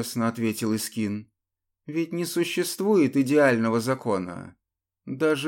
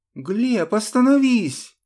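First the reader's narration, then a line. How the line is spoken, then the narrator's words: Scream. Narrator (Russian): закричала Маара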